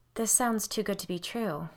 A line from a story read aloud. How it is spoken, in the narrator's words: I sighed